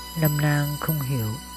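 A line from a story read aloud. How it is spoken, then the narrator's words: Soft, composed reply. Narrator (Vietnamese): nàng trấn tĩnh lại, khẽ đáp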